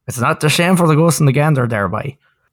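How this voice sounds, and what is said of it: Put-on Irish or Newfoundland accent. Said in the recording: “Was that an Irish accent? Were you going Irish there? ... It's starting to sound more newfy.”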